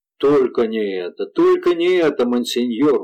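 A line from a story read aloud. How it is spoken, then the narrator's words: Exclamation. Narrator (Russian): воскликнул Дюбуа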